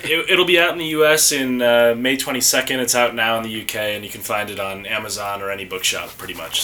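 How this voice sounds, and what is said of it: American accent. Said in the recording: “as listeners can tell by your accent, I ended up finding another American.”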